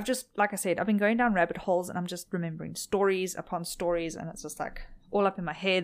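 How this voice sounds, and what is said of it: Tired, strained voice. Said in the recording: “my throat is extremely tired. ... My voice is extremely tired.”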